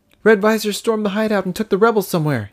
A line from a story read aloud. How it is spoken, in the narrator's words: he cried